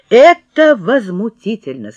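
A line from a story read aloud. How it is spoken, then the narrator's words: Plain. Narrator (Russian): сказала мама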